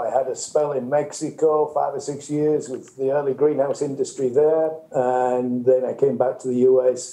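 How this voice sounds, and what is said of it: Northern English accent. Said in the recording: “you guess from my accent, I come originally from the north of England”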